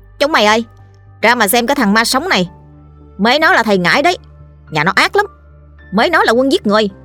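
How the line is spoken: Loud jeering shout. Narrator (Vietnamese): Một thằng trong bọn đầu tiêu hò hét lũ bên cạnh

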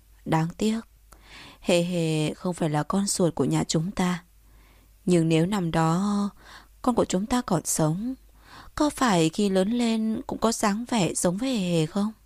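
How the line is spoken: Sighing. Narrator (Vietnamese): Vân Tiên Sinh thở dài nói

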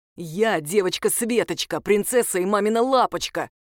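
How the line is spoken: Deep-voiced child. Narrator (Russian): пробасил ребенок

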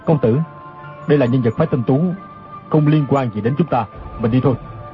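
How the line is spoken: Lowered voice. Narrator (Vietnamese): Chu Đăng Thần hạ giọng nói

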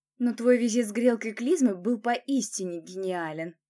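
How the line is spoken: Laughing. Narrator (Russian): рассмеялась

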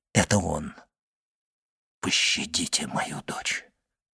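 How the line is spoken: Whisper. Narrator (Russian): прошептал Вильфор

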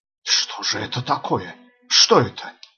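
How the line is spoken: Frightened wheeze. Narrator (Russian): просипел перепуганный Джон

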